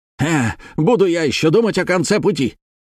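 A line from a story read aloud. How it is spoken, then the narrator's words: Angry shout. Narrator (Russian): вспылив, закричал малуинец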